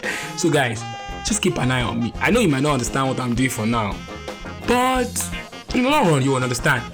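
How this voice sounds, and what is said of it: Nigerian English accent. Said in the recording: “I decided to use my Nigerian accent”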